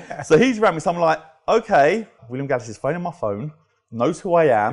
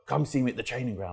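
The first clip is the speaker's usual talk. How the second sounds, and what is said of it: Deep, strong imitated voice. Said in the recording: “real deep voice. ... he's got a real deep, strong voice.”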